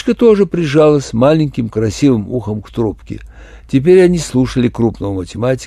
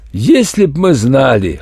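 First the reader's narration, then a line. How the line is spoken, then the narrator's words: Chuckling. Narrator (Russian): хохотнул математик Н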